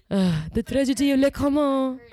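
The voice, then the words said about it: Weak attempt at French accent. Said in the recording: “I can't even do a French accent.”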